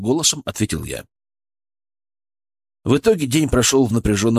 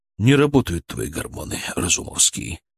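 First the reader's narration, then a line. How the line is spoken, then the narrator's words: Grim statement. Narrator (Russian): мрачно констатировал Киселев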